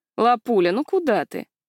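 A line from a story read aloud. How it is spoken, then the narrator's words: Purring in the ear. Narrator (Russian): промурлыкал кто-то мне на ухо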